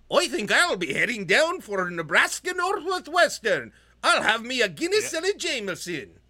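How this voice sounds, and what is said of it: Put-on Irish accent. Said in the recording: “My Irish accent is getting good ... It's getting really on point ... There's some like local dialect that I'm infusing in there”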